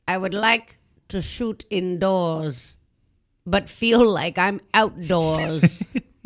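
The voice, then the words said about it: Put-on French accent. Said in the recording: “Didn't my French accent kill right then?”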